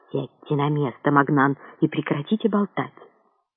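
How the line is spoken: Lecturing, preachy tone. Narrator (Russian): Назидательным тоном заявил Петлякат

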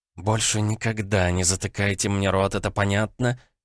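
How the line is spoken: Hissing. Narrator (Russian): зашипела визави

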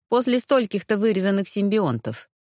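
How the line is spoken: Snorted. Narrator (Russian): фыркнул Ирс

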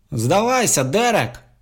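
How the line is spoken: Shouting. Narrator (Russian): закричал Барлоу

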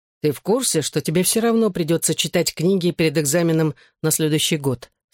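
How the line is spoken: Plain. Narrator (Russian): спросил я

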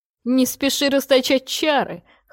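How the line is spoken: Wry snort. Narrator (Russian): хмыкнул

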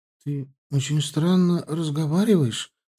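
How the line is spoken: Slightly frightened mother. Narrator (Russian): сказала матушка, немного испуганно глядя на меня

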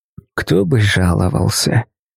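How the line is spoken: Young woman grumbling reply. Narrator (Russian): Проворчала в ответ девушка

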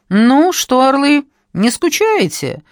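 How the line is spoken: Brisk cheerful question. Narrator (Russian): бодро осведомилась она

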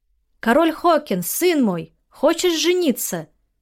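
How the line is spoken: Distant shout. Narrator (Russian): крикнул тот же голос издалека

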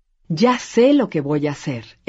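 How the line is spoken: Woman exclaiming. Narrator (Spanish): exclamó ella

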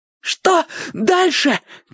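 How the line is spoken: Shouting while running. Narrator (Russian): крикнул Зиппи на бегу

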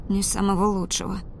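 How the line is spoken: Mumbled. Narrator (Russian): пробормотала я

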